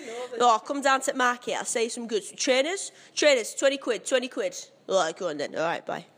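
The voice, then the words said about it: Exaggerated bad Cockney London accent. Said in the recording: “My impression of a southern person would just be really, really horrible Cockney London.”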